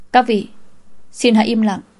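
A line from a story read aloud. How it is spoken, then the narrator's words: Raised voice. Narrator (Vietnamese): cao giọng nói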